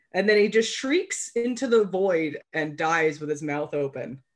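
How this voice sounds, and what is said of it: Phlegmy, congested cold voice. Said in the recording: “it's my cold voice ... my sexy phlegm”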